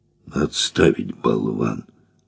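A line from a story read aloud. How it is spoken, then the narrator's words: Angry grumbling. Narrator (Russian): пробурчал багровый герой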